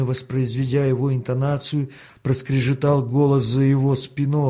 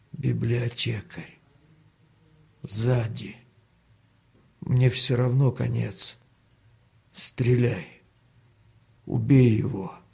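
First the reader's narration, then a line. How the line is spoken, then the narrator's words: Weakening pleading voice. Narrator (Russian): попросил слабеющим голосом Данила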